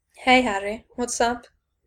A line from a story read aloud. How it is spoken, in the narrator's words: he said in a low, playful voice